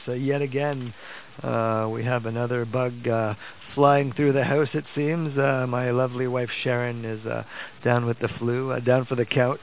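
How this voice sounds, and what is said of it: Slightly hoarse voice. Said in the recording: “excuse my voice. It's a little bit hoarse.”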